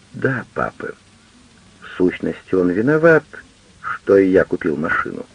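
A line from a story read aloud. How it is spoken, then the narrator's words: Very quiet girl's voice. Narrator (Russian): Дочь совсем тихо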